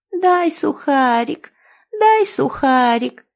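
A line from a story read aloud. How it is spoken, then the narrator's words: Thin squeaky whining girl. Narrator (Russian): законючила девочка тонким писклявым голоском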